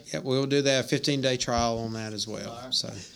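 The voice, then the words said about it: Strong country accent. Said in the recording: “probably the most country accent that you'll ever hear on this podcast”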